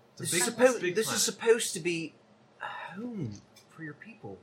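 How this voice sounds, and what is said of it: Unidentified put-on accent. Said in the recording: “I don't know what this accent is. I'm sorry.”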